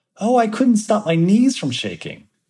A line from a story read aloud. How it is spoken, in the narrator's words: laughs